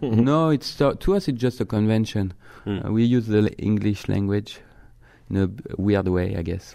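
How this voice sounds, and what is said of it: French accent. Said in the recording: “you can talk in that French accent all day”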